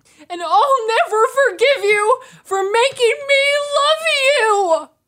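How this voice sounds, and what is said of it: Imitates another person's voice, weeping. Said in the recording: “I'll just do an impression of it ... She just weeps. She weeps.”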